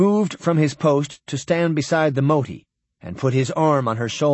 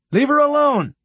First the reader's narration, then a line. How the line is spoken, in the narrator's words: Whitbread shouted